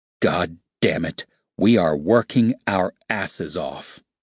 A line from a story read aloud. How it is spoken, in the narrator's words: he growled